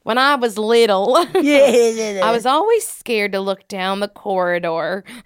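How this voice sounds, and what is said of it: Put-on American southern accent. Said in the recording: “I'll do it in a southern accent.”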